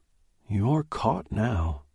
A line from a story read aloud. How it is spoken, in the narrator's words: the voice whispered